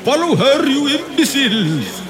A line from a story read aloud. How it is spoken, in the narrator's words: shouted an exasperated Colonel Rise